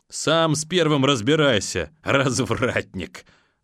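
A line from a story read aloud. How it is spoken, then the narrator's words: Laughing loudly. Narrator (Russian): захохотал ПП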